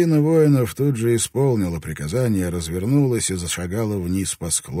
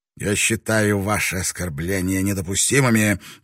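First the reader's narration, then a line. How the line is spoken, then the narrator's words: Hissing. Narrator (Russian): прошипел Нага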